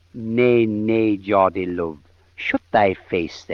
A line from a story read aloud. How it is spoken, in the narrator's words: said the Queen